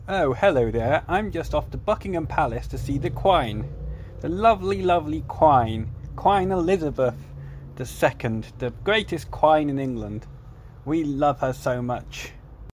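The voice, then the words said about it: Put-on Chelsea English accent. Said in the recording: “That's a Chelsea accent. They say quine over there. ... He's putting what? That on.”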